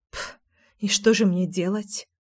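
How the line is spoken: Muttering. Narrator (Russian): пробормотала я

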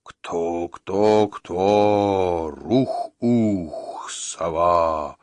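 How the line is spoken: Solemn chanting stranger. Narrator (Russian): Торжественно нараспев произнес незнакомец

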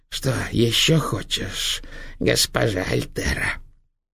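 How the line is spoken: Grinning hiss. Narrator (Russian): осклабившись, прошипела

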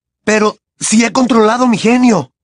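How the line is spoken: Horrified exclamation. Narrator (Spanish): exclamó Harry, horrorizado

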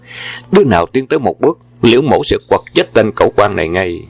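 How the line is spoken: Loud shout. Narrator (Vietnamese): Quân Bảo quát lớn

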